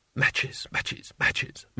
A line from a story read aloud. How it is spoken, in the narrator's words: madly to himself under his breath